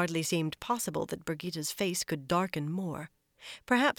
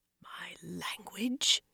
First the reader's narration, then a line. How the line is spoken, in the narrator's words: Birgitta murmured dangerously